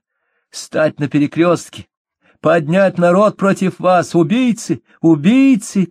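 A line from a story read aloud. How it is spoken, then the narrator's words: Muffled shouting behind walls. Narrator (Russian): кричала за толстыми стенами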